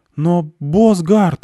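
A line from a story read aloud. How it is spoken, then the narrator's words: Pleading man. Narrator (Russian): взмолился он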